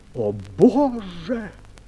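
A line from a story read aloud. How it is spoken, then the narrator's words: Exclamation. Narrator (Russian): Твистер воскликнул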